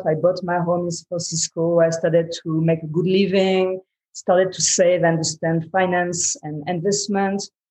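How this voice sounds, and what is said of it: Strong non-native English accent. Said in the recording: “I have a strong accent, and I don't even speak perfectly English.”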